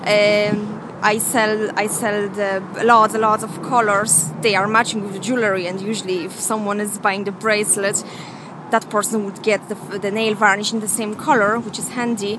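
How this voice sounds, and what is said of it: Mixed Polish and Irish accent. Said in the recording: “that's not a Cork accent we're listening to, is it? ... mixture of Polish and Irish altogether”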